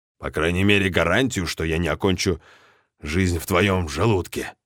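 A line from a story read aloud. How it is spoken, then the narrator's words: Grumbling. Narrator (Russian): проворчал Марлоу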